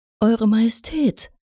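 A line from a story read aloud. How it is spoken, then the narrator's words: Mare calling in surprise. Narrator (German): rief die herumführende Stute überrascht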